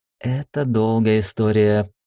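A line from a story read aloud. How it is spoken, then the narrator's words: Drawn-out drawl. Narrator (Russian): протянула Дара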